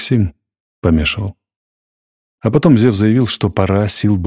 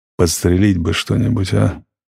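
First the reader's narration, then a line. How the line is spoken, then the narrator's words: Muttering. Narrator (Russian): бормотал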